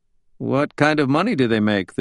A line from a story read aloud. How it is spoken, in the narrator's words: the judge asked